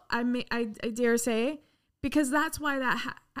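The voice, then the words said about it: Stuttering, worked-up speech. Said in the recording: “I'm stuttering, ... you're getting worked up ... emotional”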